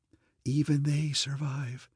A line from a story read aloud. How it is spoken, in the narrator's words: said that dying whisper in the pit